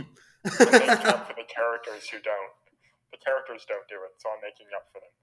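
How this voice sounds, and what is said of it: Usual voice. Nothing is said of it.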